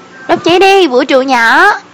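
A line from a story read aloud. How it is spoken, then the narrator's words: Shout while running. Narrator (Vietnamese): Lúc học với lớp thể dục chạy 800m cũng hét lên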